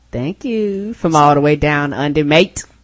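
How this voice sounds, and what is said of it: Put-on Australian accent. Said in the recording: “Australia accents”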